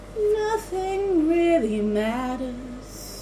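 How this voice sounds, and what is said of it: Weird singing imitation of a singer. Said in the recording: “What the fuck is wrong with your voice? That's so weird ... your Elvis impression? ... that's more like Stevie Wonder”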